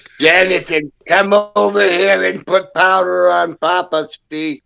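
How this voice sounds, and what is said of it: Old grandmother-like voice. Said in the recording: “you sound like my Nana.”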